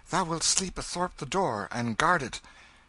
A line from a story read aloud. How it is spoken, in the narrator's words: He said sleepily